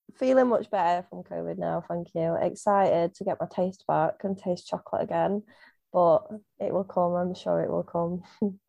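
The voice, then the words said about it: Strong Derbyshire English accent. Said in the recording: “Derbyshire, as a lot of people can tell from my accent. Apparently, I have a very strong one”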